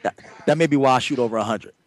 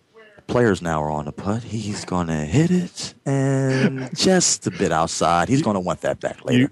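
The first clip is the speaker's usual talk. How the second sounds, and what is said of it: Hushed golf-announcer whisper. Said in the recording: “I have to whisper now. ... Get my whisper voice. ... you could be a golf announcer with that whisper.”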